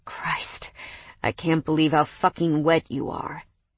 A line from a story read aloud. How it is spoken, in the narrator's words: he muttered